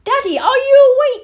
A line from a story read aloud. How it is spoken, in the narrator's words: he said loudly